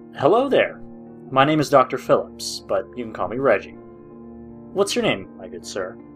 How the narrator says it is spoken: He happily said

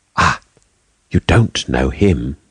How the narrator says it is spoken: she said with a sigh of relief

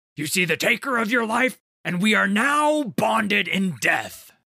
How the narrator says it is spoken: roared

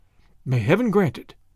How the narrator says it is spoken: the girl breathed

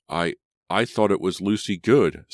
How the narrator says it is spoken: Simon sputtered

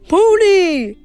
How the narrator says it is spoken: cried in total rapture

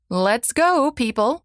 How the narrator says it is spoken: shouted Dr

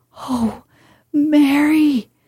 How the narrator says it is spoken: he cried out with a half sob

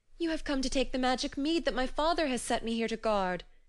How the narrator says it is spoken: she cried

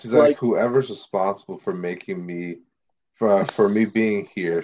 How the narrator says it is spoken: she muttered

